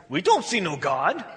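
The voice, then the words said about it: Bad put-on Russian accent. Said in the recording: “I know my accent's really bad.”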